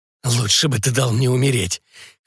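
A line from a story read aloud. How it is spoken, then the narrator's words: Hoarse whisper. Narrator (Russian): хрипло прошептал несчастный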